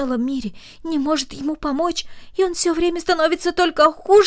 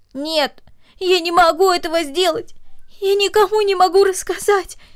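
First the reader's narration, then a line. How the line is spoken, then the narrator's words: Girl speaking between sobs. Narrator (Russian): произнесла девочка между всхлипываниями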